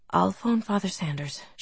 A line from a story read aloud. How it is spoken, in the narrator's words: she murmured